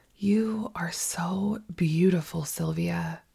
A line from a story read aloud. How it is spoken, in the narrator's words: Paula say in the softest voice